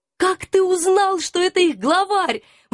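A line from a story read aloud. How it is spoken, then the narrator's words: Admiring exclamation. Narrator (Russian): восхищенно воскликнула я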